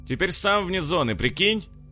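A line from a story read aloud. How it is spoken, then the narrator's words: Loud, over running water. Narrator (Russian): громко произнес парень Наталье, стараясь перекричать шум воды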